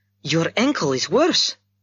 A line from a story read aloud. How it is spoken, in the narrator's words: she exclaimed